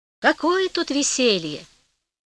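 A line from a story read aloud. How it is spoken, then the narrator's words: Plain. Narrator (Russian): ответил тот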